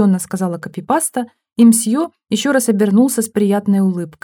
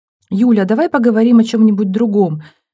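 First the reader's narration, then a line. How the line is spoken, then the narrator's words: Pleading. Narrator (Russian): взмолилась Стенина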